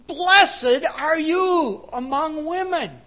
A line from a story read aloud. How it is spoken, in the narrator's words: Elizabeth excitedly says